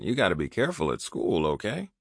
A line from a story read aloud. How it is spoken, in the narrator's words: She groaned